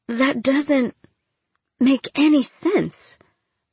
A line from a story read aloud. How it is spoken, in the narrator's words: Ma stammered